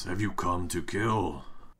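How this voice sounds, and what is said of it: Big booming creature voice. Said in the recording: “In this big booming voice,”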